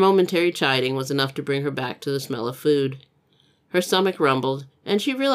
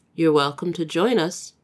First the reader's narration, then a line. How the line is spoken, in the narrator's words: Anne said